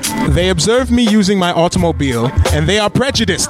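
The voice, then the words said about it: Put-on British accent. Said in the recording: “I'm going to try my British accent”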